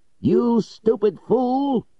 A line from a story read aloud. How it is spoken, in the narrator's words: he shouted